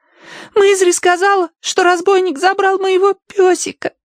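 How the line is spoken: Trembling babble. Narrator (Russian): дрожа пролепетала Агнес

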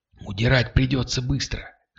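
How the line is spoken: Whispered. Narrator (Russian): шепнул курьер

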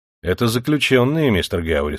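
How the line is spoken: Plain. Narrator (Russian): сказал шериф

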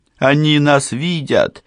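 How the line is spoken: Shouted. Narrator (Russian): прокричал Эвридика

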